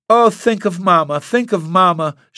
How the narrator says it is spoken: wailed almost louder than was safe

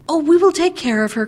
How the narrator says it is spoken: cried the girls gaily

